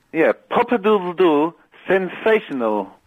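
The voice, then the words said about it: Imitates another person's voice. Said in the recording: “Can you do it in a Tony Blackburn voice?”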